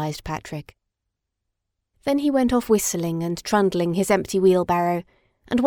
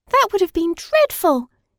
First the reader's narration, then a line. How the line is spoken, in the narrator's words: exclaimed Madeline